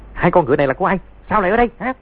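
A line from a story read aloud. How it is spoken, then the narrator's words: Shouted. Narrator (Vietnamese): tiếng quát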